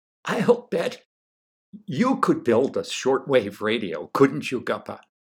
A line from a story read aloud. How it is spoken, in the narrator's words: said loudly and proudly, very nearly shouting in his ear